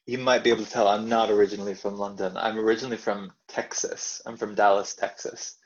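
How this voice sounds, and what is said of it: American Texan accent. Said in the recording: “as we can tell from your accent, you're not actually originally from London”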